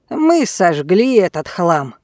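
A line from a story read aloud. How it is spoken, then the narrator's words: Plain. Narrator (Russian): сказал он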